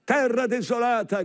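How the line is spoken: Shouted. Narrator (Italian): grida

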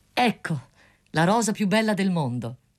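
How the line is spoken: Student's exclamation. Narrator (Italian): esclamò lo studente

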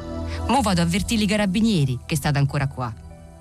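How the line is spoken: Cheerful shouting. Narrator (Italian): gridò allegramente a Genesio

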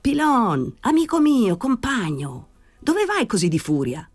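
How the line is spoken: Shout. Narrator (Italian): gridò Danny

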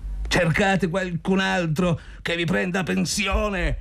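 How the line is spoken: Shouting. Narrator (Italian): gridò Zotov

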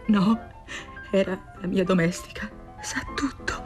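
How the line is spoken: Anguished murmur. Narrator (Italian): lei, pietrificata dall'angoscia, mormorò

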